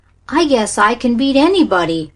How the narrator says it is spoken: cried Danny boastfully

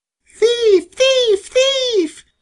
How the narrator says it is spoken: screamed Sammy until his throat was sore

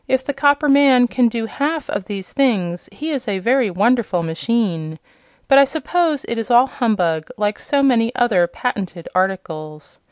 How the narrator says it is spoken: gasped the Yellow Hen in amazement

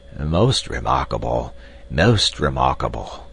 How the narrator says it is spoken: strolled off muttering to himself

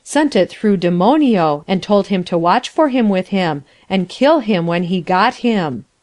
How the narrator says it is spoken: Sinclair exclaimed a little impatiently

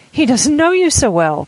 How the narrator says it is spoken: cried Amelia

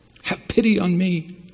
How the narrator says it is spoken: she cried

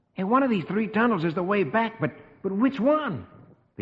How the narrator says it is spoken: Rusty exclaims

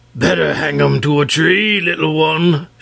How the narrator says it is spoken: shouted Wul Takim in his big voice

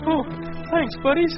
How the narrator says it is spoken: he gasped

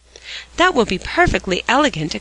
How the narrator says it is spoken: exclaimed Polly with sparkling eyes

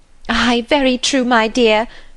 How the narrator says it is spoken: cried the latter

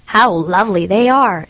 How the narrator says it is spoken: exclaimed the miller

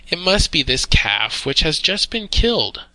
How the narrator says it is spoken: said his wife

